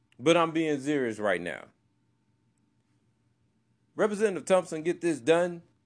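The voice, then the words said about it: Country boy voice. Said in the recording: “now I'm talking in my country boy voice”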